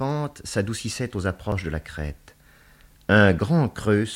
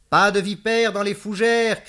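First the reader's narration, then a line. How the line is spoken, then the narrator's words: Shouted. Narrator (French): cria-t-elle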